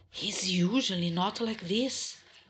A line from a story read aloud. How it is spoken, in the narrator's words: whispered back